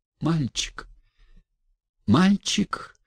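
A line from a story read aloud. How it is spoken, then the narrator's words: Sickly, pained question. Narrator (Russian): болезненным голосом спросила она Арину Прохоровну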